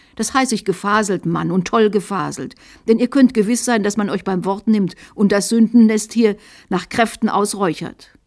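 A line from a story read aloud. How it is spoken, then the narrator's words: Shrill little voice. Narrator (German): Der Bischof … erbost und rief mit schrillem Stimmchen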